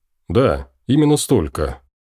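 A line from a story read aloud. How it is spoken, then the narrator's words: Deep bass voice. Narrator (Russian): чужак пробасил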